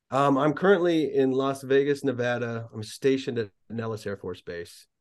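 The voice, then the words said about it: American accent. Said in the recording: “the old colonial twang”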